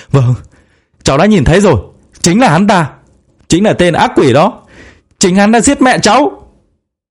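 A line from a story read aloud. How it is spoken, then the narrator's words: Loud shouted reply. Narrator (Vietnamese): Thu Thu cũng hét to trả lời lại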